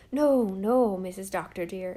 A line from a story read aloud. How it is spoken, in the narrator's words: exclaimed Susan, turning a deep brick red from shame